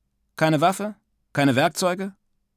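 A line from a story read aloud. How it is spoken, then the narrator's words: Dry question. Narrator (German): fragte mich der Mann ganz trocken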